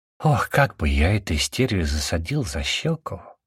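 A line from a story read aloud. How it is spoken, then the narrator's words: Said in an undertone. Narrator (Russian): вполголоса сказал Фубля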